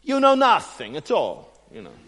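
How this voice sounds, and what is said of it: Put-on accent for Caiaphas. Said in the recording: “Maybe that wasn't quite his accent”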